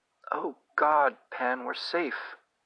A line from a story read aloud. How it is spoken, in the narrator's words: sobbed